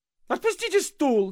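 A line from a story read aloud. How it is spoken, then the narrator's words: Sudden shriek. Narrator (Russian): завизжал вдруг Авессалом Владимирович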